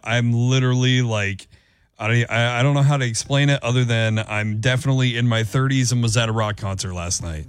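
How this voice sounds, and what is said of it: Unusually deep, worn-out voice. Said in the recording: “you can tell by my voice. It's very deep. This is my, ... My NPR voice today.”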